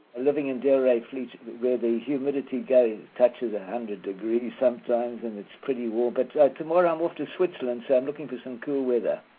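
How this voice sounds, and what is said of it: South African accent. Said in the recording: “we hear from your accent, you're from South Africa”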